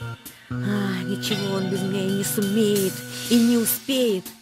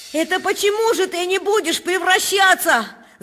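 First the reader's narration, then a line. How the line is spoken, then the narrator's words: Yelling. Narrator (Russian): заорал я на Малинина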